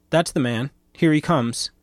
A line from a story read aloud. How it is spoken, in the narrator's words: cried the foremost one, whom I recognized as the lawyer